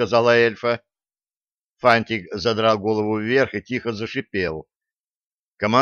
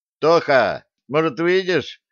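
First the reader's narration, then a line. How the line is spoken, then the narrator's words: Shouting. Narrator (Russian): крикнул Юнга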